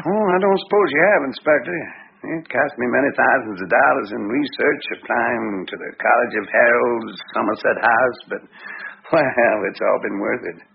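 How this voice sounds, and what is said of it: American Wyoming accent. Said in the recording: “Me with my Wyoming accent”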